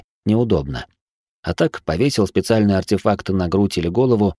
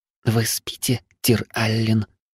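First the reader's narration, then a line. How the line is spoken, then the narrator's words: Hot female whisper. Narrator (Russian): жарко зашептал приятный женский голосок в самое ухо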